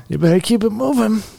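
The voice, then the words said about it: Robert De Niro impression. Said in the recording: “All you're De Niro now ... I didn't know you had a De Niro in you ... his De Niro impression”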